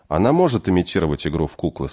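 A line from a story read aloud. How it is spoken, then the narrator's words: Calm reply. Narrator (Russian): спокойно ответил Агарин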